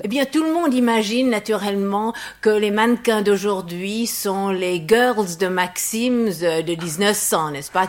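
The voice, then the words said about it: English accent speaking French. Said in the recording (French): “mon petit accent anglais ... je suis anglaise ... mon accent qui est tellement bête”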